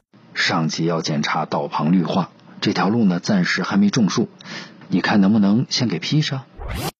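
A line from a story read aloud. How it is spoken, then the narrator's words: Low explaining voice. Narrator (Chinese): 那人 低声解释道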